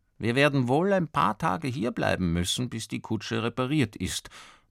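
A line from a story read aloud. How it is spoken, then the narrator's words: Father murmuring at bedtime. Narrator (German): murmelt der Vater vor dem Schlafengehen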